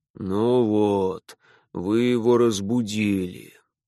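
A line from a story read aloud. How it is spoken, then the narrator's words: Sighed by a man. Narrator (Russian): вздохнул хозяин дома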